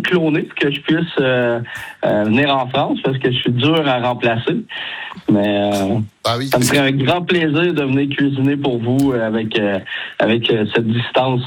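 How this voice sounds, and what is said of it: Quebec French accent. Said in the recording (French): “cet accent québécois ... Vous avez de la chance d'avoir cet accent”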